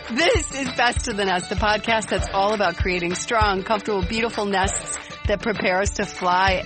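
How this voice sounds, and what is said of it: Giddy, excited voice. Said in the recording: “can you hear the giddiness in my voice? ... I'm so excited”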